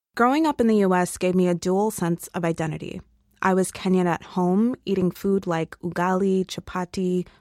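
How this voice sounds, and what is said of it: American-sounding English accent. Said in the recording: “I sound like the whites, or wazungus ... very different from how we pronounce words here in Kenya ... she says wara, and in Kenya, we say water.”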